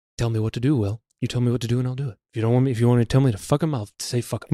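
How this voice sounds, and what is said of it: Rough impression of a film character. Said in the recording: “What is he, Johnny Depp from Fear and Loathing? ... That impression. Again, you got to work on it.”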